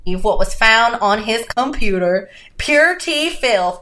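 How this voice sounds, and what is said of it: Poor put-on Southern accent. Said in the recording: “my very poor Southern accent, North Carolina accent”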